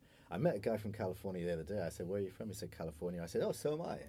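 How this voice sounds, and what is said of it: British accent. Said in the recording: “In a British accent.”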